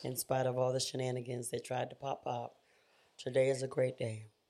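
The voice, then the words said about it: Slightly hoarse voice. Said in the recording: “I'm a little hoarse. I'm not sick or anything like that.”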